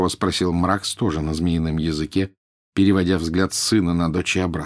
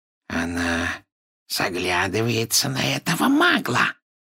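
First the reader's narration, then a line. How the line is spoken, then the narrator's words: Hissed viciously. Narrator (Russian): прошипел Морфин, злобно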